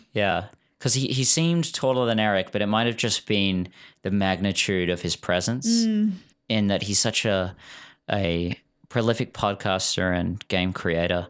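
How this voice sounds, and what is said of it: Australian accent. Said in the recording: “I was the only person with Australian accent”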